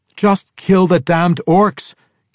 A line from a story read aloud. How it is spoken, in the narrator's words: King Harnoth cried